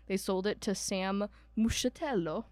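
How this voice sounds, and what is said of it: Put-on Italian accent. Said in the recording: “I don't know why I'm saying these like with an Italian accent.”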